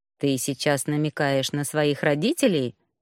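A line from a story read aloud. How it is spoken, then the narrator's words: Insolent dragon's smirking snort. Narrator (Russian): хмыкнул этот наглый драконище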